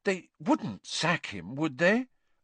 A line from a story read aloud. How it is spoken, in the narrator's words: said Hermione anxiously